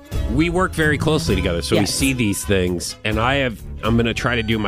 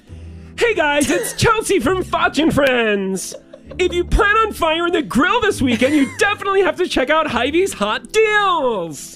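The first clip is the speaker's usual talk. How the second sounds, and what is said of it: Imitates another person's voice. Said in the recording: “my best Chelsea impression”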